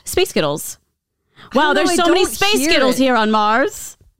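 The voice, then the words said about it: Weak attempt at Scottish accent. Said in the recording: “I don't know how the A works for the Scottish accent ... Well, I'm not really speaking Scottish”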